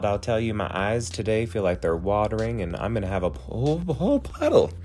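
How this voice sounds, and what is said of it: Squeaky voice, congested by allergies. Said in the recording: “I'm about to sneeze because allergies are out and about ... Listen to my voice. I sound like a squeaky toy”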